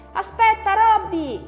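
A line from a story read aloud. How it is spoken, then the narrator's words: Disappointed shout. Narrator (Italian): gridò delusa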